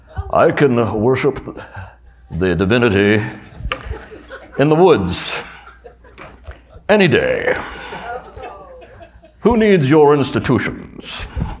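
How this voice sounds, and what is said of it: Put-on sophisticated northeastern accent. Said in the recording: “let me do my northeastern sophisticated accent”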